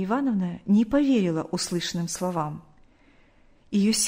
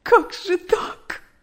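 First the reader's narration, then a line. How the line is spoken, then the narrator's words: Sobbing. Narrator (Russian): рыдала она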